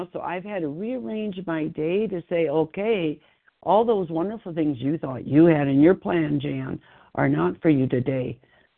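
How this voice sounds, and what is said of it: Congested voice. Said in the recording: “I don't know if you hear my voice, but I have a cold”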